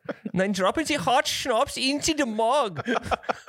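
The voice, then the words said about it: Put-on German accent. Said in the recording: “What accent was that? ... That's German.”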